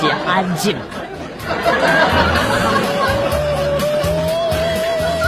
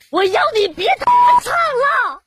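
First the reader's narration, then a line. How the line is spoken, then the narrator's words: Exasperated shout. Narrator (Chinese): 我一个低楼层的住户，终于忍不住大喊了一句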